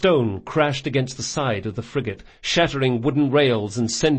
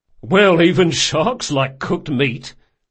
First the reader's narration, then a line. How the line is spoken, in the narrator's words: said the sergeant with a chuckle